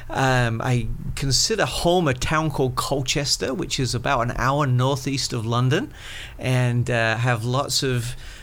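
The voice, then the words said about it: Slight English accent. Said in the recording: “you have a slight accent that is not Floridian ... born and raised in England”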